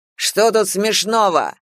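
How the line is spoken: Barking. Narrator (Russian): рявкнул Жига

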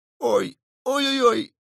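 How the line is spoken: Shouting in pain. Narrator (Russian): закричал в ответ Кусандра

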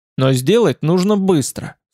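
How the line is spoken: Stern. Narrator (Russian): сказал я строго

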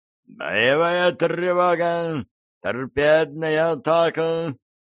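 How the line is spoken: Roared. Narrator (Russian): взревел камбрик

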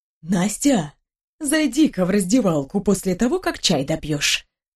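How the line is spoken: Conspiratorial whisper. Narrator (Russian): заговорчески прошептала Марья Васильевна

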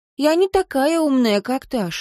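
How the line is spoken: Sad. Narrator (Russian): грустно сказала Лив

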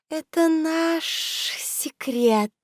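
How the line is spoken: Hissed. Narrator (Russian): прошипела красотка

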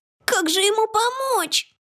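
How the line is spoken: Whimpering. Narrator (Russian): захныкали огрики

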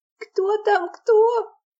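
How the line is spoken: Thin shrill frightened squeak. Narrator (Russian): пропищала Яна очень тонким и пронзительным от страха голосом

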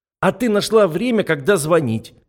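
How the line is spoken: Snapped back. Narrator (Russian): в ответ огрызнулась Катя

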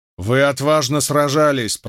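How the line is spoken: Shouting. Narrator (Russian): прокричал Чингис

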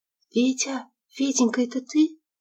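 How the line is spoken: Whisper over the phone. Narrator (Russian): трубка прошептала голосом Валентины

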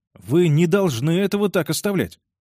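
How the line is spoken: Agitated. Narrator (Russian): сказал Карл взволнованно

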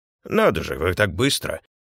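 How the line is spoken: Muttering, tenant. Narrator (Russian): пробормотал жилец

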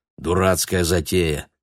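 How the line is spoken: Grumbling. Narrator (Russian): пробурчал кто-то

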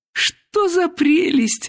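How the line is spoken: Exclamation. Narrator (Russian): воскликнула Елена Васильевна

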